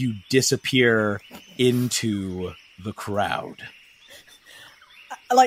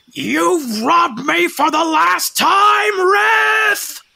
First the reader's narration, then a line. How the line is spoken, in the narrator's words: as you're running, leaving this guy behind you, you hear him yell out